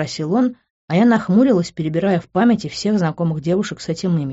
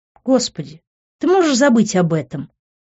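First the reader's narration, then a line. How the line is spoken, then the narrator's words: Irritated. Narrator (Russian): раздраженно передернула я плечами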